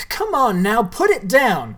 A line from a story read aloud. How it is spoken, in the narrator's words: shouted Sawyer